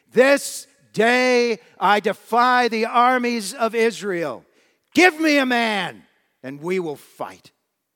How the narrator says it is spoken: Philistine raised his voice even louder and screamed

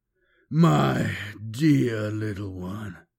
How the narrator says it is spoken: he said huskily

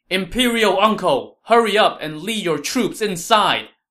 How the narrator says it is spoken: shouted to Liu Bei

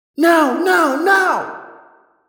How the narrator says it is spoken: I yelled

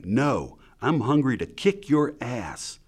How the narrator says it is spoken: She almost shouted back

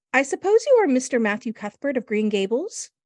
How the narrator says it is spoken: she said in a particularly clear, sweet voice

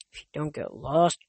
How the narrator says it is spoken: Grover muttered

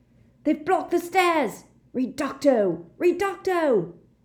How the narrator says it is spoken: a voice shouted

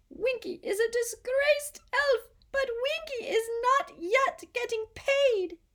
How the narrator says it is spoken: she squeaked

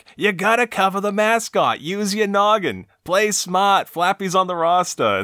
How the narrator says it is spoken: one yells back

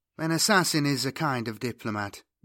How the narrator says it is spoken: Judith said dryly

